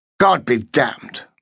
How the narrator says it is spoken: Markham growled

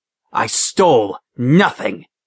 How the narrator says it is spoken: he hissed

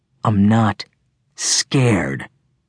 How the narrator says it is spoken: said coldly

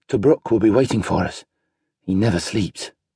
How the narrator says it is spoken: Gaius muttered

